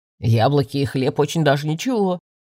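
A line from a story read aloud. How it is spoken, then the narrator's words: Wry grunt. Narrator (Russian): хмыкнул оборотень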